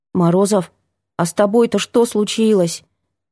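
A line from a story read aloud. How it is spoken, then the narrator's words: Quiet question. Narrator (Russian): тихо спросила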